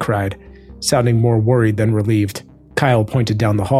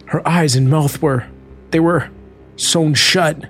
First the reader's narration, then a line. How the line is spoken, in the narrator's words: blurted out